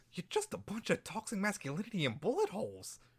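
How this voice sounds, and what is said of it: Poor Harley Quinn impression, wrong pitch. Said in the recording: “apologize to Margot Robbie for that horrible impression ... I can do the accent, I just can't do the pitch.”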